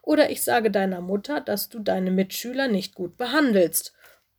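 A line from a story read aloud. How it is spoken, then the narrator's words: Gasping plea. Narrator (German): bat er japsend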